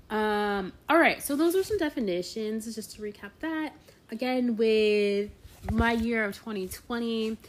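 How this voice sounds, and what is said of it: Strained, sick-sounding voice. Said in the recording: “my voice is still struggling... still kind of sick for like a week now”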